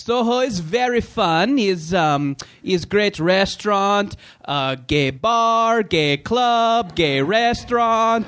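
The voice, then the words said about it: Imitated foreign accent, unidentified origin. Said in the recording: “do an impression of him. I don't know where his accent was from”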